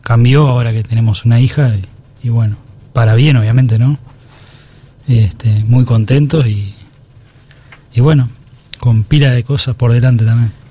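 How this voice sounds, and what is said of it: Deep radio announcer voice. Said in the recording (Spanish): “voz de locutor”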